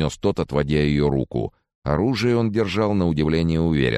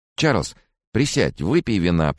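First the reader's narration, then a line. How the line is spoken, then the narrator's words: Babbling. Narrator (Russian): пролепетал Фрэнсис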